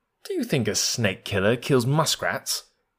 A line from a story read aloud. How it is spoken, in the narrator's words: said Rikki-tikki scornfully